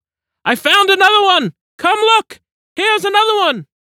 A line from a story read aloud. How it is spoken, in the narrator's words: another voice cried out